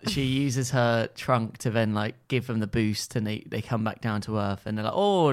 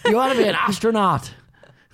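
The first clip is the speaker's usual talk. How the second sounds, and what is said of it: Put-on Irish accent. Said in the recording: “what accent is Irish ... An Irish version of Jack from This Is Us ... That's quite good.”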